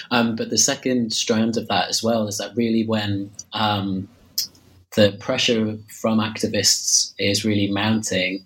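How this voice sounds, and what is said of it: Slightly hoarse voice. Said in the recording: “I'm losing my voice slightly. I've got a bit of a cold.”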